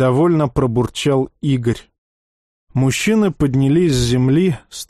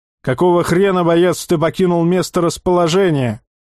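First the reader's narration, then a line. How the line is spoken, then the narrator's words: Barked. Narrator (Russian): гаркнул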